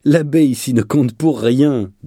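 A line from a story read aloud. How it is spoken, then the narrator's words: Sneering speech. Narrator (French): dit Aymaro toujours en ricanant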